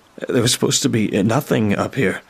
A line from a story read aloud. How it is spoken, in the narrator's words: I stammered out